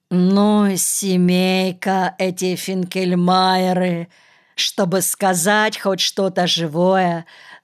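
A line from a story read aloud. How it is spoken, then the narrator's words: Rueful sigh. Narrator (Russian): сокрушенно вздохнул он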